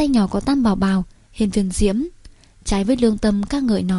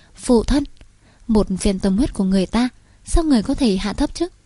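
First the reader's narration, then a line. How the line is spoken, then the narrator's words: Angry. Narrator (Vietnamese): Tam Bảo chống nạnh ngẩng đầu nhìn Hiên Viên Diễm giận nói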